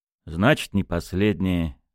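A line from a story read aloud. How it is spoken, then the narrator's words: Sighing. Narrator (Russian): вздохнул Кольцов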